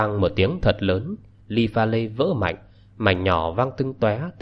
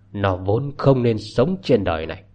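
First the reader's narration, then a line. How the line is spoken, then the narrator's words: Hissing shriek. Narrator (Vietnamese): Bà Nguyễn rít gào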